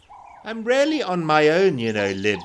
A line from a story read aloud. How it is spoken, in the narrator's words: said